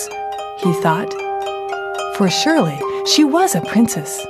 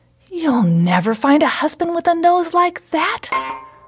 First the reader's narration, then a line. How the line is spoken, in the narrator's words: her mother sighed